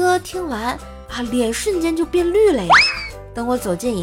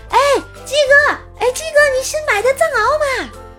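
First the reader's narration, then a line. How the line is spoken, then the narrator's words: Eager warm shout. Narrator (Chinese): 我赶紧就热情的喊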